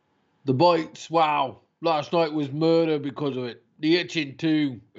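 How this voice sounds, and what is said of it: Spot-on imitation of punk singer's accent. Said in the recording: “That's a fucking spot on Johnny Rotten accent.”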